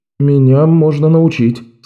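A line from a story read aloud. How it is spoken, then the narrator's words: Unsure. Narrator (Russian): сказал Беннон, все еще чувствуя себя неуверенно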